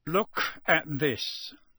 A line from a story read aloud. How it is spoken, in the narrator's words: he growled